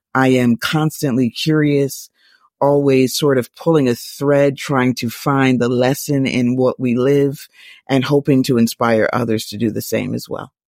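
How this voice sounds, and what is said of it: American accent with a twang. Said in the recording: “she's from the United States of America. That's why she's got that twang.”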